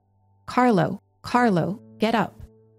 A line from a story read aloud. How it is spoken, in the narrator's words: called the young boy twice in an authoritative tone